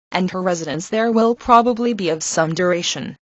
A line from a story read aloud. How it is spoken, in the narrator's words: said her father dryly